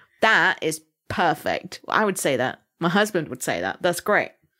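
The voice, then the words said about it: Somerset English accent. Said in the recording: “I am from Somerset. So my accent is more farmer / pirate.”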